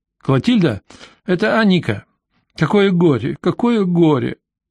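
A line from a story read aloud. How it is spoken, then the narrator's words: Sobbing woman. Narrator (Russian): Женщина всхлипнула, произнесла несколько слов между двумя рыданиями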